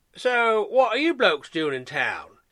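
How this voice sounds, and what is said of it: British accent. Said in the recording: “his British accent”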